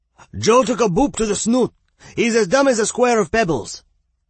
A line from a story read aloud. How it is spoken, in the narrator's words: Poppy called out to them